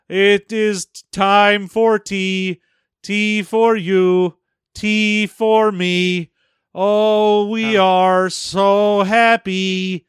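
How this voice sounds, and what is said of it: Joyless monotone singing. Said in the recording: “joylessly singing about how happy we are ... you are the most monotone”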